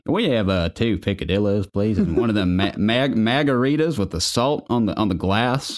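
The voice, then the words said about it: Put-on Southern accent. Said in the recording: “My dad doesn't have a southern accent, but it just begs for one when you say picadillo.”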